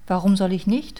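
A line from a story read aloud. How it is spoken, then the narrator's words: Plain. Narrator (German): fragte der Königssohn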